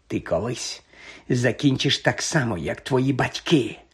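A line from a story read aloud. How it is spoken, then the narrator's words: Quiet hiss. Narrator (Ukrainian): прошипів неголосно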